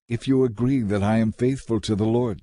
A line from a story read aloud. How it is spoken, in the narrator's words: she said